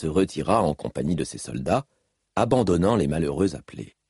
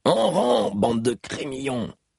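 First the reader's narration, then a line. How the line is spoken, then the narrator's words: Brusque barked order. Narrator (French): lança Gaz d'une voix brusque aux nouvelles recrues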